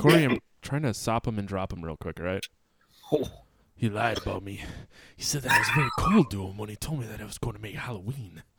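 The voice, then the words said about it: Put-on sexy voice. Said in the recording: “Not Gilbert Gottfried, your sexy voice. ... That was my sexy voice.”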